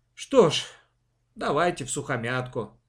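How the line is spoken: Resigned sigh. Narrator (Russian): вздохнул он так, словно поставил на своей жизни крест

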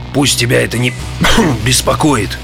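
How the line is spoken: Strained wheeze. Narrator (Russian): с усилием прохрипел я

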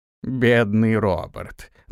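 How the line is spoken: Mocking old man. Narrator (Russian): насмешливо произнес старик

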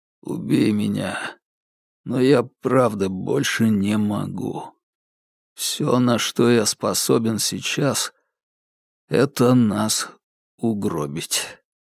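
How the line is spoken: Barely audible. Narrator (Russian): Он еле слышно сказал

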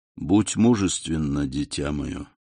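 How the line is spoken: Gentle yet commanding. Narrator (Russian): Монте-Кристо сказал ласково, но все же с повелительной ноткой в голосе

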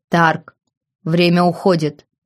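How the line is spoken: Deep bass voice. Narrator (Russian): пробасил он

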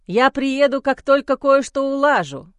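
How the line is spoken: Shouting after someone. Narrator (Russian): крикнул мне вдогонку Майло

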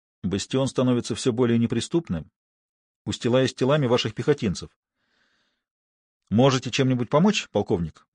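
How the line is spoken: Quiet. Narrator (Russian): негромко произнес

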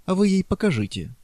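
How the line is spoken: Innocent suggestion. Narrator (Russian): с невинным тоном предложил Преста

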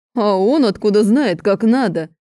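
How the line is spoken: Laughing loudly. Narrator (Russian): Начинает хохотать Аарон

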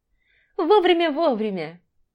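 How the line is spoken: Drunken laughter. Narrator (Russian): расхохоталась пьяная девица

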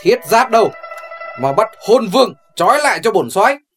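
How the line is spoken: General's shout. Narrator (Vietnamese): Mẫn tướng quân hét lên

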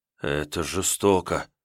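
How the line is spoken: Shocked trembling mutter. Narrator (Russian): в шоке пробормотал бригадир, губы его затряслись

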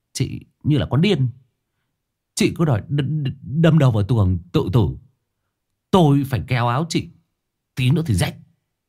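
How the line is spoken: Trembling voice. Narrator (Vietnamese): giọng vẫn còn run run

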